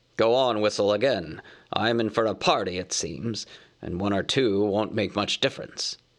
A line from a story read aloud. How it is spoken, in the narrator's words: growled Bjorn